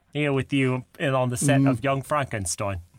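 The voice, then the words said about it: Bad Cockney-accented impression of another person. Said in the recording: “Cockney accent ... I'm just going to do a bad Michael Caine impression”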